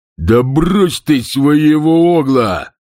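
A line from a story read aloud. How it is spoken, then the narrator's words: Growling burly man. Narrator (Russian): зарычал один из офицеров Бонавентуры, здоровенный детина по имени Чард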